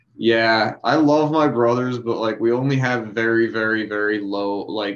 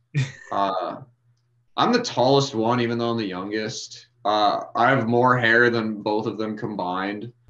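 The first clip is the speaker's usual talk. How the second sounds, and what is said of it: Deliberately deep voice. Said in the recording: “Deep voice.”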